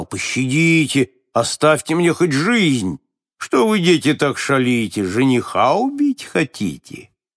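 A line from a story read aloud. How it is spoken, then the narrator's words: Exasperated shouting. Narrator (Russian): Только когда они слишком донимали его, он кричал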